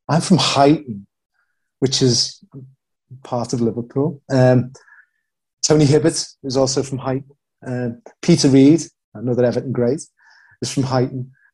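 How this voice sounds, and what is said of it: Scouse Liverpool accent. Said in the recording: “the Scouse accent ... it's a really cool sounding accent”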